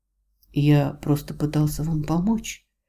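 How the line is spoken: Soft pleasant male apology. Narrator (Russian): мягко извиняется приятный мужской голос

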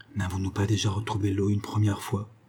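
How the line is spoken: Said quietly. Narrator (French): dit-il tout bas

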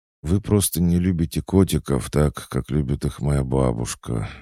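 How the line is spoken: Sorrowful sigh. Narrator (Russian): горестно вздохнула Алевтина, с тоской

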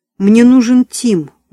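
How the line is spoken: Pleading female voice. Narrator (Russian): взмолилась Диана

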